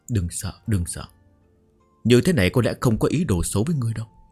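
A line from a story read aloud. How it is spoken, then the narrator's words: Soft nervous muttering. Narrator (Vietnamese): nhẹ nhàng vỗ ngực lầm bầm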